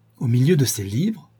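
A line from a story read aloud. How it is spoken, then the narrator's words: Astonished cry. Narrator (French): s'écria-t-elle, stupéfaite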